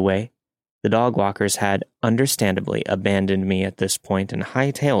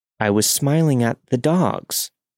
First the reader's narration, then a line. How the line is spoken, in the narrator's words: as calmly as possible said